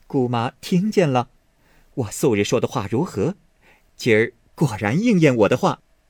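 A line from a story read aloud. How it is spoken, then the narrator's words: Laughing. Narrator (Chinese): 凤姐笑推薛姨妈道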